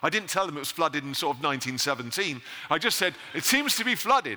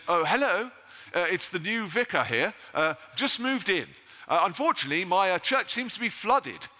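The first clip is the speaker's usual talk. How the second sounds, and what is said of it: Posh, genteel clergyman voice. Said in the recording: “I put on my best Anglican voice.”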